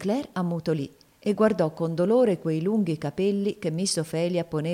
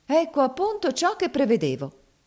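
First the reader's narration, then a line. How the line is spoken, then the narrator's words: Exclaimed. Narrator (Italian): esclamò Maria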